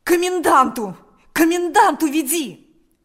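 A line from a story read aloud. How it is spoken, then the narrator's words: Desperate shout. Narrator (Russian): закричал Степан отчаянным голосом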